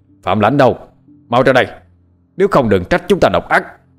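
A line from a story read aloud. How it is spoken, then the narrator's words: Man shouting outside. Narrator (Vietnamese): tiếng của một người đàn ông hét lớn ở bên ngoài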